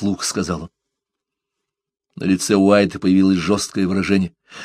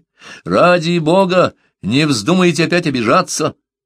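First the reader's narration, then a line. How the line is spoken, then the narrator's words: Shouted. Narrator (Russian): крикнул Парсел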